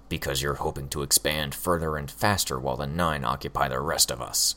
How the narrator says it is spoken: Hookwolf growled

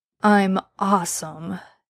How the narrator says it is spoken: Dean argued sleepily

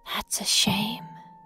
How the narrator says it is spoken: she whispers

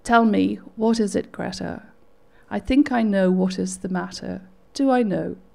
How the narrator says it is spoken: He said again softly

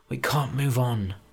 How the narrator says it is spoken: he muttered

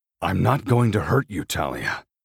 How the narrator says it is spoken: I growl

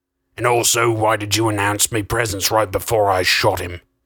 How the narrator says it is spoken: Crust grumbled

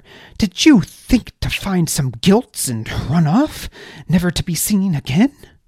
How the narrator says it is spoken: Baz snorted

